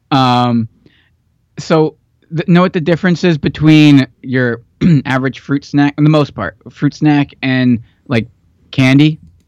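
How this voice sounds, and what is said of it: Hoarse, fading voice. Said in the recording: “losing my voice again”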